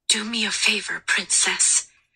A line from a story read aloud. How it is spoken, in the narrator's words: he whispered, his breath warm against her mouth